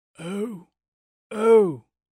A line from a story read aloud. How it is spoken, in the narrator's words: the voice croaked